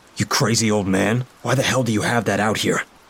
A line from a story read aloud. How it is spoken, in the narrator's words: I asked angrily